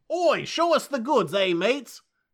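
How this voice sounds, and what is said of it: Bad put-on British accent. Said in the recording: “Terrible accent. Terrible. ... They're British.”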